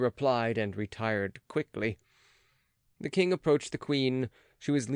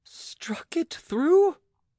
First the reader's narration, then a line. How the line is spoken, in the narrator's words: cried the queen, turning pale